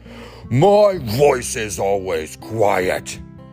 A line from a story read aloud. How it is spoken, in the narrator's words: Bear shouted